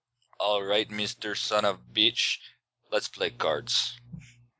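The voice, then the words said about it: Weak Russian accent imitating Teddy KGB. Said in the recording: “I loved Teddy KGB ... your Russian accent needs to work”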